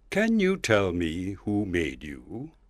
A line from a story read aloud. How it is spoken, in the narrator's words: said solemnly